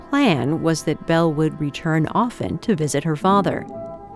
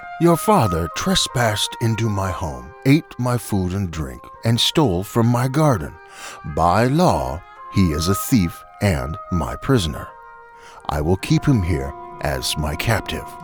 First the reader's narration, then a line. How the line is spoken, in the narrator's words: He cleared his throat and said gruffly